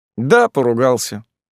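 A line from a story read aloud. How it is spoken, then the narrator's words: Gloomy confirmation. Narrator (Russian): мрачно подтвердил Никита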